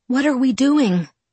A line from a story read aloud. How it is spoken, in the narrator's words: I asked breathlessly